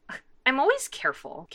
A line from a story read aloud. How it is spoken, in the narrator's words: Catra says indignantly